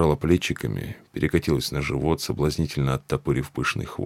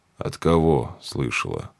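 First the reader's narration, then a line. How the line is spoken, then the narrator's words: Lazy question. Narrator (Russian): лениво спросил Джек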